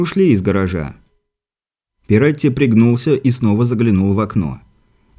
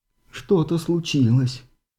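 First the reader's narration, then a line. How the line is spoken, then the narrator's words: Moaning. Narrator (Russian): простонала миссис Уолтон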